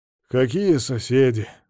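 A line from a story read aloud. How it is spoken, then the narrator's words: Sighing. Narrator (Russian): Мамонов вздохнул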